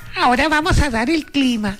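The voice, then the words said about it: Childlike little girl's voice. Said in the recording (Spanish): “voz de niño ... Esa voz es de niñita que le sale a usted.”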